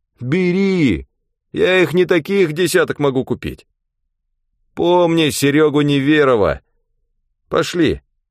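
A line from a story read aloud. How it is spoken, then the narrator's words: Cheerful shout. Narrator (Russian): свояк Сергей Сергеевич закричал весело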